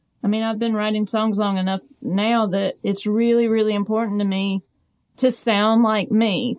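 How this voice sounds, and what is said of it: Southern accent. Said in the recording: “a Southern accent. I speak with a Southern accent. I'm very, very Southern”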